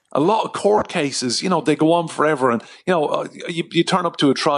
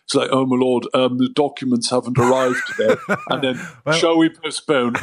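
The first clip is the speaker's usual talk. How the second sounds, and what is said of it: Put-on accent. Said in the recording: “I'll just do the accent so you hear ... Thank you so much for the accent as well.”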